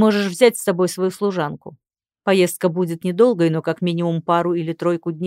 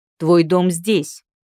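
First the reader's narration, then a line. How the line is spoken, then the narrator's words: Displeased bark by husband. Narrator (Russian): рявкнул недовольно муж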